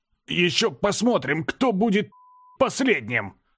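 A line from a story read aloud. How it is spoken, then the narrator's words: Forced out. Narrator (Russian): Выдавил я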